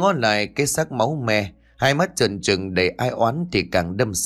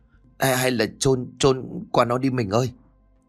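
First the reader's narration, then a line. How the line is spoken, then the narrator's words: Terrified trembling voice. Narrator (Vietnamese): Thế lành cóng ruột gan, gương mặt không giấu nổi nét hãi hùng run rẩy bảo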